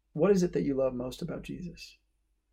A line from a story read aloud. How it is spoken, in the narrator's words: he calmly asks the ex-con